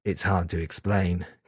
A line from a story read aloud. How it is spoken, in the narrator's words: Kazuya said quietly